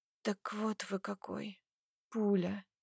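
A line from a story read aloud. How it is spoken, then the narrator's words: Barely audible drawl. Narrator (Russian): Тяну едва слышно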